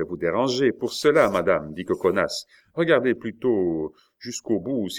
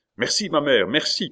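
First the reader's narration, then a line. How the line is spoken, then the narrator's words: Young man shouting. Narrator (French): cria le jeune homme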